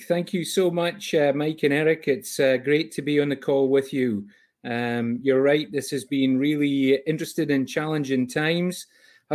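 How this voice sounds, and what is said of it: Scottish accent. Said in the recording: “that is not a true Canadian accent, my friend. You are hailing from a different region of the world ... I was born and raised in a small village called Fyvie, Fyvie, in Scotland, in the UK.”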